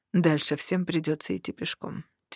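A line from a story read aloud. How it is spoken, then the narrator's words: Quiet. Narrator (Russian): тихо сказал он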